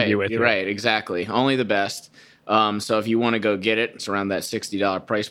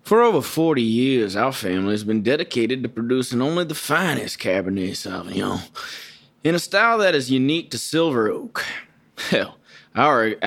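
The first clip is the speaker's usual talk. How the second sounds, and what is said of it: Put-on wine-tasting accent, slow syrupy. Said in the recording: “I like to do it in my wine tasting accent ... Just make it like molasses spilling out of your mouth.”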